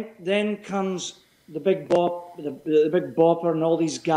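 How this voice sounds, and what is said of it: Usual voice. Nothing is said of it.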